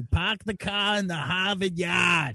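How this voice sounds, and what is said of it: Put-on Boston accent. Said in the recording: “I'll have to give you a Boston accent lesson or two.”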